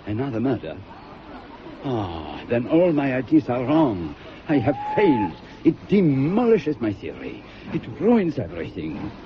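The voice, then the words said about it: Hercule Poirot's Belgian-French accent. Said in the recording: “I want you to play Hercule Poirot ... how do you know that I can do a Belgian accent? ... there is a very great deal of difference between a Belgian accent and a French accent”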